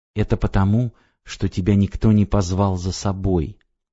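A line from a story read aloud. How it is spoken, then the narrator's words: Quiet but firm. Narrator (Russian): тихо, но твердо сказал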